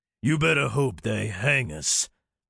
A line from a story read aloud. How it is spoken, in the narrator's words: Jed Tubbs snarled